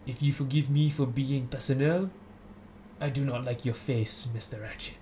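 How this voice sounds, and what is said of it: Poor put-on French accent. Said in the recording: “I'm going to try this in my French accent. ... Oh, that's terrible. ... It's a good effort. ... It's an A for effort.”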